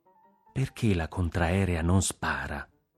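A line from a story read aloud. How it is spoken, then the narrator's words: Low voice. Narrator (Italian): disse a voce bassa Antonino Nunziante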